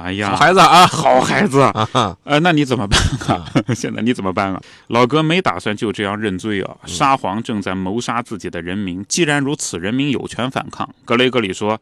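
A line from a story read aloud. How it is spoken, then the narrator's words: Old mother, smiling. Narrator (Chinese): 瓦利亚就是康斯坦丁的老娘……脸上也是笑眯眯的，说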